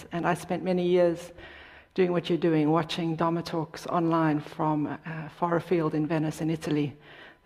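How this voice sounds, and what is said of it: Non-American foreign accent. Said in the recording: “As you can probably tell from my accent, I'm not a native, born and bred here from the US.”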